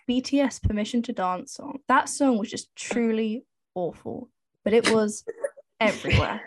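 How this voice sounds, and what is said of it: Noticeable, distinctive accent. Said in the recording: “Your accent is just the funniest thing ever.”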